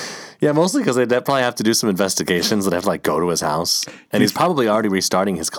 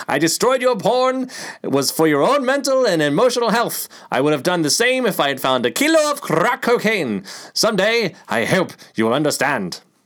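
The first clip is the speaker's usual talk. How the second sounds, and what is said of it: Put-on transatlantic accent. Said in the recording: “I think my accent lost something. My transatlantic accent.”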